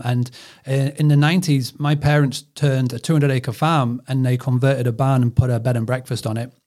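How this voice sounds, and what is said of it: British accent. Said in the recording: “this accent is over the pond. So I'm from the UK”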